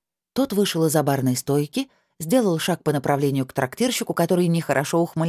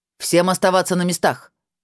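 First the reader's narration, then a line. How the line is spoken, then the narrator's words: Barked. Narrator (Russian): рявкнул он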